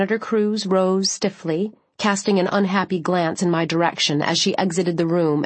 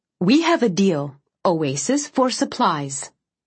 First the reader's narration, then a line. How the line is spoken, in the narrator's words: Senator Cruz said sharply